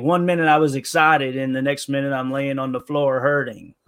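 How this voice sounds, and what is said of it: Imitates another person's voice. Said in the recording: “that was a good accent. That was a good impression.”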